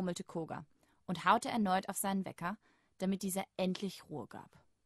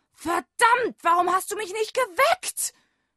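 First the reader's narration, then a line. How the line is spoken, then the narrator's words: Angry shout. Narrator (German): schrie er seinen Wecker an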